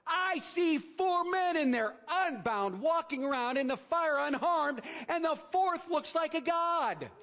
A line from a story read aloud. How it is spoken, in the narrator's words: Nebuchadnezzar shouted